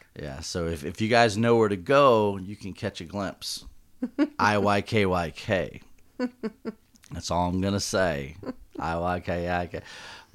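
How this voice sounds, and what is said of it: Southern American accent. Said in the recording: “My southern accent's coming out.”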